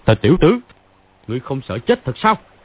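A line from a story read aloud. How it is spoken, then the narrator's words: Thunderous shout. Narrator (Vietnamese): Phàn Nhất Ông cầm cây cương trường lên, giọng mạnh xuống nền, làm chấn động cái đại sảnh quát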